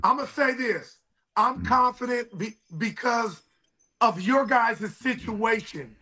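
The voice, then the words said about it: Hoarse, strained voice. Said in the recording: “my voice is bad ... lost it all”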